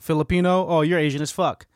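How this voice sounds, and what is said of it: Poor impression of generic people. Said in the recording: “That was a horrible impression ... This is a general impression of other ... people”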